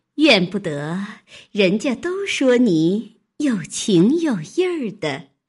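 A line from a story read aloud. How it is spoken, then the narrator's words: Laughing. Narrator (Chinese): 那媳妇笑道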